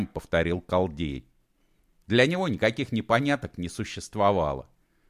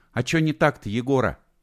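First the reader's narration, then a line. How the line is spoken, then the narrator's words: Timid question. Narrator (Russian): робко спросила Алена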